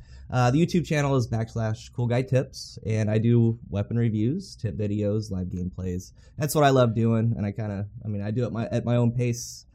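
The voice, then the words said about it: Worn-out, strained voice. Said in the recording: “my voice is kind of shot”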